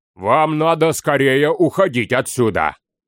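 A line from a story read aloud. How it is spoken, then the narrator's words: Deep bass, giant. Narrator (Russian): пробасил бородатый Гротти, настоящий великан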